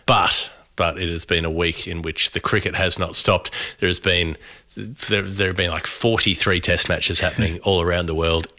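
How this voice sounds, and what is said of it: Congested voice from a cold. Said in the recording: “I've got a cold. ... I'm tired.”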